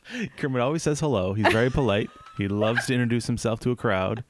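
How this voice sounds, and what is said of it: Usual voice. Nothing is said of it.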